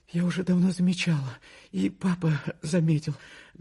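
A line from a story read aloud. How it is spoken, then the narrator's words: Holding back sobs. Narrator (Russian): говорила, стараясь сдержать рыдания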